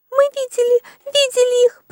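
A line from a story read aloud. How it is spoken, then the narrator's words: Squeak. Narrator (Russian): пропищала мышь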